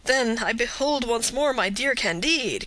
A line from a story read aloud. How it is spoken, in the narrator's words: cried Pangloss